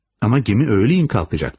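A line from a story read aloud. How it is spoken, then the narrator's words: Irritated voice. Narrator (Turkish): dedi sinirli bir sesle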